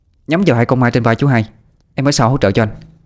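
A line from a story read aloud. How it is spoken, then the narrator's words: Sharp shout. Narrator (Vietnamese): Tú Linh mới quát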